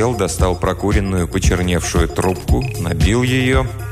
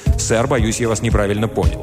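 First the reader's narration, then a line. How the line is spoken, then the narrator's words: Sharp reply. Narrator (Russian): Я довольно резко ответил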